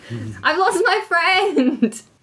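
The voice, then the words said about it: Yelling loudly. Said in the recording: “I'm just going to yell throughout the streets ... Why are you yelling?”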